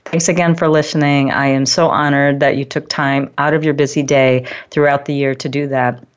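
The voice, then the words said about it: Teary, emotional voice. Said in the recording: “I'm getting a little teary here”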